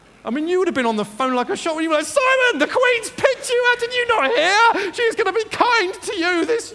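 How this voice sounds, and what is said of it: Usual voice. Nothing is said of it.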